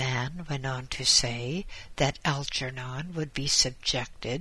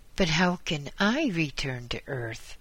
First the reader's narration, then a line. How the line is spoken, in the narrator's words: exclaimed Algernon